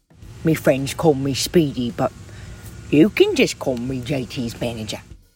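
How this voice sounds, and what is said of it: Inaccurate put-on Cockney accent. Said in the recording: “suspiciously inaccurate Cockney accent”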